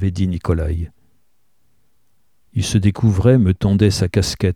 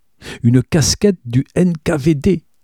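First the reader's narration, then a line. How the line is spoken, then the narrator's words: Triumphant exclamation. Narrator (French): s'exclama-t-il, triomphant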